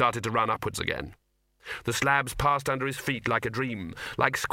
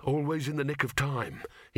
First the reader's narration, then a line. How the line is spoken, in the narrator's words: he muttered